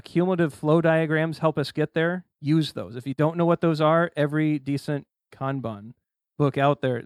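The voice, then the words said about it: Indiana accent. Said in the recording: “My pronunciation of Kanban, my Indiana accent hurts me sometimes.”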